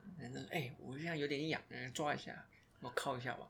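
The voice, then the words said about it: Put-on mainland Chinese accent. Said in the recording (Chinese): “你刚才那口音是不是国人的口音？”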